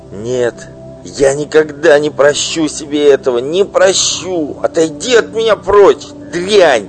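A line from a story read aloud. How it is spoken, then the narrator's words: Disgusted shout. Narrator (Russian): Крикнул он с отвращением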